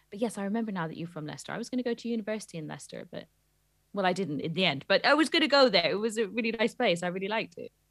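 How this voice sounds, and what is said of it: Slight West Country English accent. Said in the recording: “you sound more West Country than me ... you go a little bit harder on the R sounds. Just a little bit”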